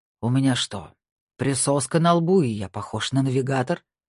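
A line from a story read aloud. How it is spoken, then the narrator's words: Growled. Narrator (Russian): прорычал Снейдер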